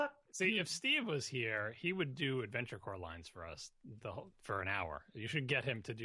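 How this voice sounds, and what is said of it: Usual voice. Nothing is said of it.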